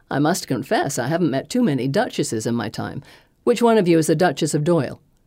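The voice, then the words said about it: American accent. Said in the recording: “she quips, with an American accent.”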